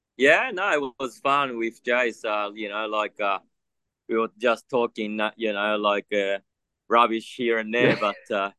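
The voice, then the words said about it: Australian accent. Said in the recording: “you're Japanese with Australian accent”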